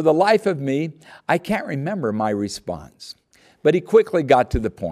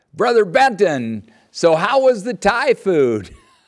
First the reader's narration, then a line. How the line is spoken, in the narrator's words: In a booming voice